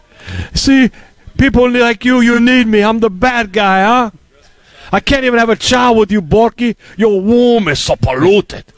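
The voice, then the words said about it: Imitates a movie gangster's accent. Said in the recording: “Tony Montana? ... the accent's bad. ... The accent is bad.”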